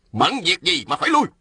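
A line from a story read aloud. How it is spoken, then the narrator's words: Shouted. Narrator (Vietnamese): Ôn Phương Ngô quát lên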